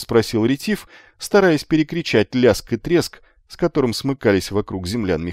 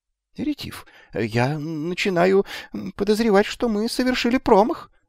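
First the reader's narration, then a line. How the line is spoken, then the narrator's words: Trembling voice. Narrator (Russian): дрожащим голосом произнес Магнан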